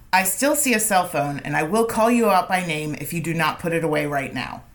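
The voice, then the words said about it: Stern teacher voice. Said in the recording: “That was your teacher voice”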